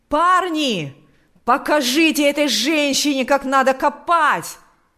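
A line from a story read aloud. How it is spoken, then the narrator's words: Shouting. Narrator (Russian): кричал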